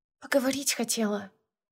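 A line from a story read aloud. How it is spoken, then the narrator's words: Quiet sister. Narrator (Russian): тихо ответила сестра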